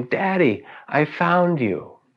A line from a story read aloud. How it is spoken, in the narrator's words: with a great shout of joy, she exclaimed